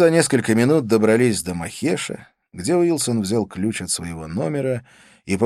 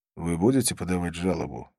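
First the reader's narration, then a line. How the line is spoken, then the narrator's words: Quiet question. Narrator (Russian): тихо спросил я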